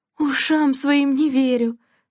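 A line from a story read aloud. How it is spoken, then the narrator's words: Delighted exclamation. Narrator (Russian): с восторгом воскликнула Делла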